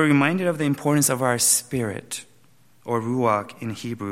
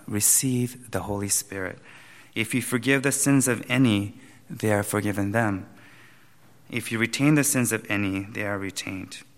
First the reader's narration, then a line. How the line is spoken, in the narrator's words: breathed on them and said to them